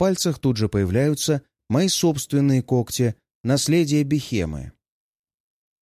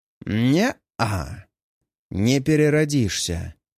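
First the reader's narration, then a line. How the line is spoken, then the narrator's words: Calm, almost mocking. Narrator (Russian): Мой голос звучит спокойно, почти насмешливо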